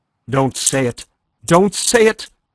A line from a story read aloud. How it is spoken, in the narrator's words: Madame cried out